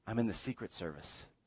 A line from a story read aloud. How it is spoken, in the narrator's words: whispered